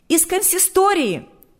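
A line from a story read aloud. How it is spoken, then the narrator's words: Shouted. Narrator (Russian): выкрикнула она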